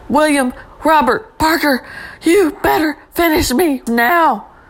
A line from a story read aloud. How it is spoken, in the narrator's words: Hope began to shout